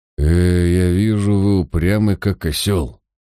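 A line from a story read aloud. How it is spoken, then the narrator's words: Frowning grumble. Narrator (Russian): нахмурившись, проворчал Мальверер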